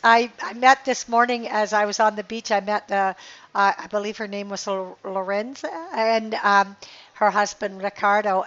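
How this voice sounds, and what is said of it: Hoarse, strained voice. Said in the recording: “I feel like I'm losing my voice. It sure doesn't sound like me.”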